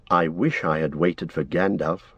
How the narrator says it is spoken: Frodo muttered

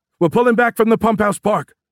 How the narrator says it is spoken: someone yelled over the radio

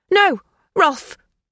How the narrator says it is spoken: Sabrina cried

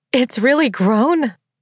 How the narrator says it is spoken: I cried

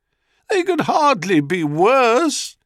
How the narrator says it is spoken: wailed Io

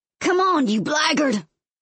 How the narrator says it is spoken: He hollers, like Captain Ahab and Moby Dick

